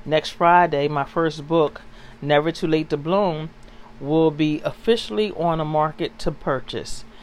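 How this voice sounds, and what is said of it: Excited, upbeat voice. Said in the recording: “I'm excited. I guess you can hear it in my voice.”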